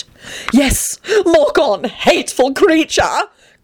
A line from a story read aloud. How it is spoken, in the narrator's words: Grinlittle cried out spitefully